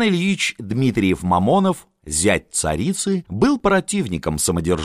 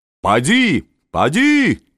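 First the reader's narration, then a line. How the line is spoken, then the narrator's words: Shouting postilions. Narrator (Russian): кричали дворяне-форейтеры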